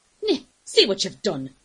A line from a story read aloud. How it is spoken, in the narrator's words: snapped